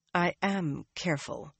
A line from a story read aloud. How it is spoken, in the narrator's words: Nynaeve said in a tight voice